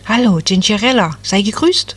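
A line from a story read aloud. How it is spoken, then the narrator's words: Cheerful. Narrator (German): sagte das Nadelbäumchen fröhlich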